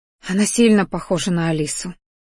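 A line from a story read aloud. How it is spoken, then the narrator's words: Quiet, mother. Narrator (Russian): тихо произнесла мама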